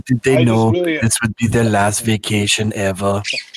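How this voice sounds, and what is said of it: Imitates another person's voice. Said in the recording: “great Werner Herzog impression”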